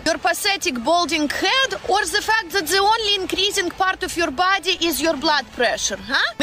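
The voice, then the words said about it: Russian accent, rolled R's. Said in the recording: “She's some sort of Slavic ... Russian? ... It's Russian. ... She just rolls every word. ... That is a Russian accent.”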